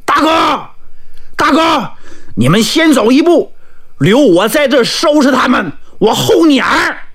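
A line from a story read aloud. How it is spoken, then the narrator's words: Loud shout. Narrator (Chinese): 王琦 高喊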